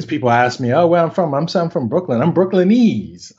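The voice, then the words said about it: New York Brooklyn accent. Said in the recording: “I think folks now can kind of hear the New York accent. ... You mean my Brooklyn accent?”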